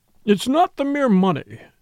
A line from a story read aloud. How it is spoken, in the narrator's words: he cried